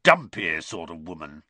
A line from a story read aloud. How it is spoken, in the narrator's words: he growled finally